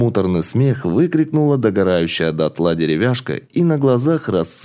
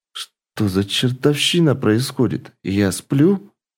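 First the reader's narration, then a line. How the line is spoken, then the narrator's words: Slightly trembling voice. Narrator (Russian): слегка дрожащим голосом произнес Игорь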